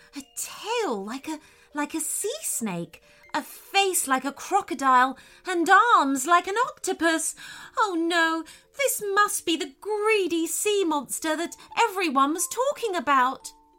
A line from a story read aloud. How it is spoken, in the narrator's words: cried Layla